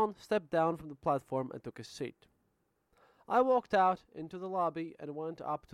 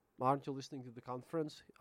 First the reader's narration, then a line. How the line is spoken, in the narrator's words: I asked